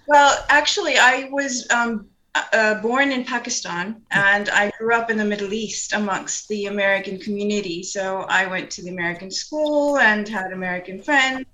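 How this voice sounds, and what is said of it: Mixed blended accent. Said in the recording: “I heard accents, and I was a bit puzzled trying to figure out where these accents, because I'm sure there are more than one, they're a bit of a combination”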